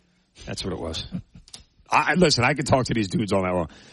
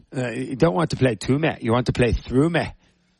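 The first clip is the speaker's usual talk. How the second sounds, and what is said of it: Impression of a TV character's voice. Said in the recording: “That was my Jamie Tart impression”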